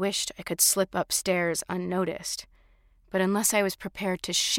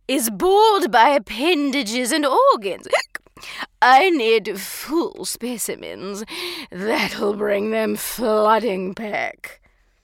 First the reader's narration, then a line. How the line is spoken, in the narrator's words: said loudly, slurring her words